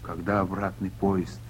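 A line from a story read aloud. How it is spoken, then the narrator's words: Plain. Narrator (Russian): спросил Потапов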